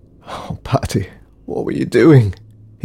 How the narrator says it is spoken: he sobbed

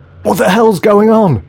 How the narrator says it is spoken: screamed one of the security team

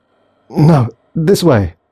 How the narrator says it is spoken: stuttered Thomas

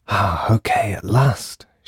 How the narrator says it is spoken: she whispered

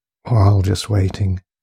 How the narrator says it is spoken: sighed the man quietly

